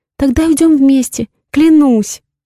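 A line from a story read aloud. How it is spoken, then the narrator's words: Sobbing woman. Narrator (Russian): рыдает она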